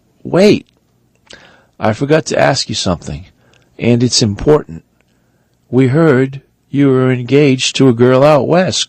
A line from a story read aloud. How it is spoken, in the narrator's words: asked